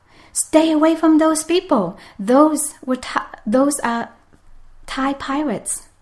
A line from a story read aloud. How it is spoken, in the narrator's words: so sick and so weak, she tried to yell out